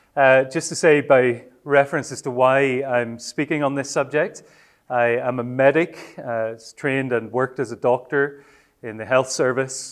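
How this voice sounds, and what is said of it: Northern Irish accent. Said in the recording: “I come from Northern Ireland, so we do speak English there, but maybe in a slightly different way. I hope you can follow my accent.”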